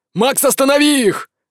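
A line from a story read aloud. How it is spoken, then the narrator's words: Shouted. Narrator (Russian): закричал отец Нур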